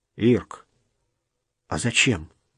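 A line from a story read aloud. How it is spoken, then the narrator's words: Forced-out words. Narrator (Russian): выдавил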